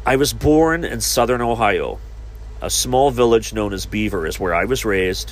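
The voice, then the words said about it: Very different regional accent. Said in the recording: “You have a very different accent.”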